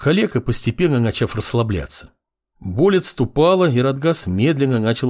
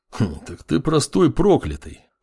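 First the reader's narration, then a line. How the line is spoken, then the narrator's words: Snorting grunt. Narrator (Russian): хмыкнул бывший следователь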